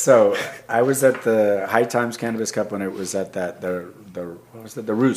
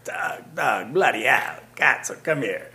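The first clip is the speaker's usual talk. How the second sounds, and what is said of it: Imitated lively Italian accent. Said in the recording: “really lively Italian guy who's really passionate about weed ... he's got this really great accent”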